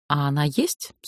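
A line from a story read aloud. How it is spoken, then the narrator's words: Plain. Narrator (Russian): спросила я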